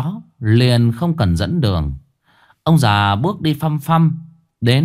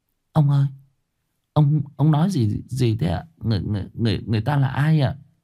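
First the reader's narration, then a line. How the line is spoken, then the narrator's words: Stammering question. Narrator (Vietnamese): Bà lắp bắp đoạn hỏi lại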